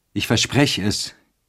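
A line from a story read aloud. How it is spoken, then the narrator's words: Calling out. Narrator (German): rief er ihr entgegen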